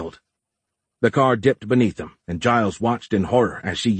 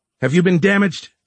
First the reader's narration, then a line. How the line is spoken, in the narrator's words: Giles shouted